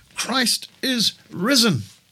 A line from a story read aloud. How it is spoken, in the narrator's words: the minister exclaims